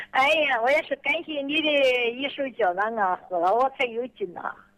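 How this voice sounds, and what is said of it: Elderly woman, regional accent, vigorous voice. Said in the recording (Chinese): “我听你的口音是哪里人呢？ ... 我听你说话很有劲儿了，不像72岁的老人呐”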